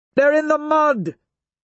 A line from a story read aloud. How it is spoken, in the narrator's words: Mustang shouts